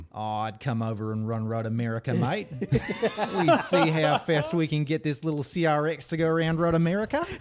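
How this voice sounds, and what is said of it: Put-on accent. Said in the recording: “was a great accent.”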